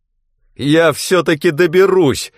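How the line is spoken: Yelling. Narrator (Russian): завопил Клейтон

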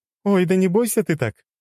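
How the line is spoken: Laughing. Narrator (Russian): рассмеялась

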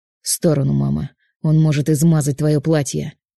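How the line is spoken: Growling. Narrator (Russian): Рыкнул Павел

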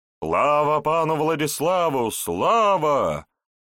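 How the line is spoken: Joyful group shouting. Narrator (Russian): радостно закричали остальные разбойники или воины славного рыцаря

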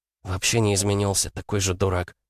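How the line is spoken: Grumbled. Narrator (Russian): пробурчала Лида

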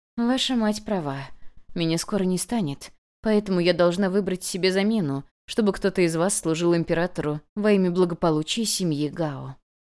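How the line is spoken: Sighed, then said. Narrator (Russian): та лишь вздохнула и сказала

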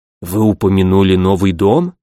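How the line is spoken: Quiet. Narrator (Russian): тихо сказал

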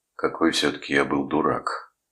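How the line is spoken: Low dejected voice. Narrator (Russian): сказал он, наконец, низким упавшим голосом

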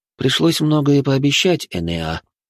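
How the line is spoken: Sigh. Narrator (Russian): вздохнул я

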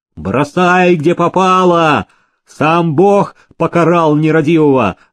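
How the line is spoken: Hunchback shouting. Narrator (Russian): кричал горбун

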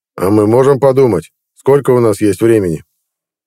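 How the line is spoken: Calm inquiry. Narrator (Russian): спокойно осведомился Герлот

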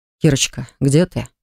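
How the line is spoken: Tender. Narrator (Russian): спросил он ласково

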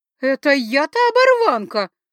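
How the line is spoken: Indignant shriek. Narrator (Russian): возмущенно взвизгнула охотница

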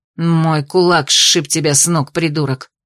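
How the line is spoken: Growl. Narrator (Russian): рыкнула Ада

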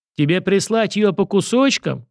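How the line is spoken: Yelling. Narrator (Russian): заорал его собеседник

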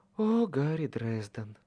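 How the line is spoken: Purred. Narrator (Russian): промурлыкала она

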